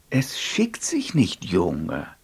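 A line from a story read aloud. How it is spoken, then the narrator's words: Plain. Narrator (German): sagte sie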